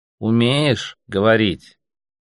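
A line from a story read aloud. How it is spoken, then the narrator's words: Slow repetition. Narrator (Russian): медленно повторил слоник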